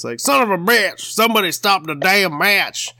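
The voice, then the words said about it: Thick Oklahoma accent announcer impression. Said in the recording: “that thick Oklahoma accent ... I think you're pretty good”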